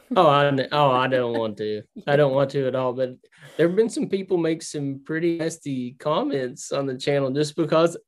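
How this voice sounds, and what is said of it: Thick southern American accent. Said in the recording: “I have a real thick southern accent that I can't get rid of”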